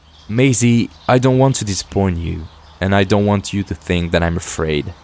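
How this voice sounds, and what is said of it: French accent. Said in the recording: “my French accent.”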